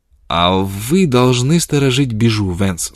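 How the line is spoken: Plain. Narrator (Russian): сказала Фрона

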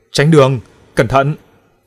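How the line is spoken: Girl's voice, drowned out. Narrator (Vietnamese): tiếng cô gái phía sau bị những âm thanh gào thét át đi

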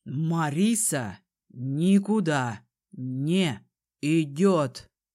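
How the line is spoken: Slow, deliberate repetition. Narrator (Russian): медленно повторил дракон

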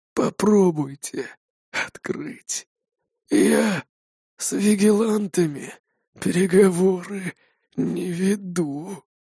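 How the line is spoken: Breathed out. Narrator (Russian): выдохнул он

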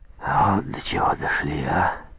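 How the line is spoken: Sighing staff captain. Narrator (Russian): вздохнул штабс-капитан

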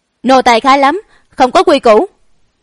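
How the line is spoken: Jealous raised-voice shout. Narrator (Vietnamese): Hoàng y nữ tử trong mắt xẹt qua một tia ghen ghét, cao giọng quát

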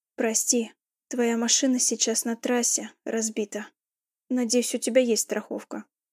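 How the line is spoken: Hoarse rasp. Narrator (Russian): прохрипел Кристиан

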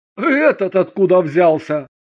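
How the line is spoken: After laughter, asking. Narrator (Russian): Тесть, отсмеявшись, спросил

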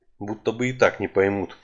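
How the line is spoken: Muttered. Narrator (Russian): пробормотал я

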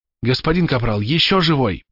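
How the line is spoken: Whisper. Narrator (Russian): прошептали

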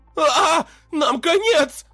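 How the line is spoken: Shrill squeal. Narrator (Russian): взвизгнул лекарь

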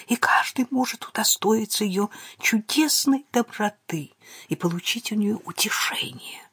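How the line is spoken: Whispered. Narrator (Russian): прошептал Торнебю

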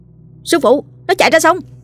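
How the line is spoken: Urgent shout. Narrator (Vietnamese): Nó lập tức thét lên

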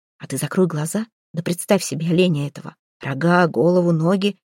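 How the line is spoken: Whispered. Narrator (Russian): отец, мой отец, зашептал

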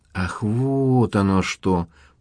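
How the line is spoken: Drawling. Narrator (Russian): протянула Амалия

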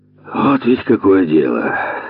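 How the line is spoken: Sigh. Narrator (Russian): Вздохнул Слепов

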